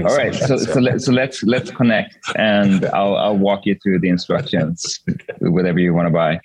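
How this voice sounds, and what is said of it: Swedish accent in English. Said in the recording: “if you pick up on a weird accent, I'm Swedish”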